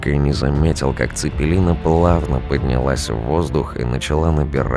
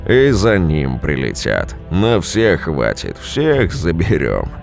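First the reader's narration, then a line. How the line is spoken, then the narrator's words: Gunner laughing. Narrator (Russian): засмеялся артиллерист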